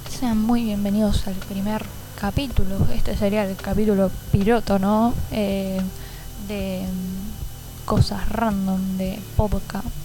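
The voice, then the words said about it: Argentine Spanish accent. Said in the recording (Spanish): “vivo en Argentina. Bueno, se podrá saber por mi acento si prestan atención”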